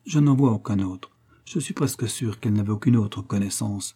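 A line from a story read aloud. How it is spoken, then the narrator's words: Confidential tone. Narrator (French): Barnaby d'un ton confidentiel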